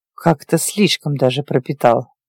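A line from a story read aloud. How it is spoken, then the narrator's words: Wary mutter. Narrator (Russian): пробормотал настороженно принюхивающийся Вита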